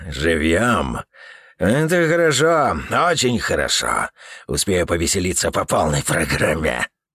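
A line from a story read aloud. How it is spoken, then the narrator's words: Smirking grumble under breath. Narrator (Russian): Туз проворчал себе под нос, ухмыляясь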